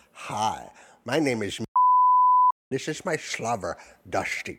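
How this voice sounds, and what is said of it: Imitates a comedy sketch character voice. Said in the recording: “he would do the Dieter voice from Saturday Live. It was very good.”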